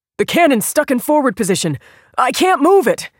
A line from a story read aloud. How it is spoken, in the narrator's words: the man cried